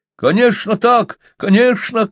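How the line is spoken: Shouting. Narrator (Russian): крикнул Песотька

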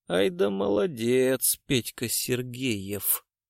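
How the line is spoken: Quiet. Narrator (Russian): негромко сказал Гуров

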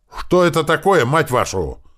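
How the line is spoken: Yelled. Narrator (Russian): заорал Грач

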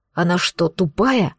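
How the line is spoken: Hissing. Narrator (Russian): прошипел он

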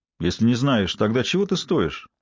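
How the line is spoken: Plain. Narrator (Russian): сказал па

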